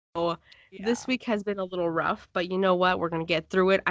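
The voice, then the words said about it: Sick, weird-sounding voice. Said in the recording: “If you guys can't tell by my voice, I got sick ... bear with me and my weird sounding voice”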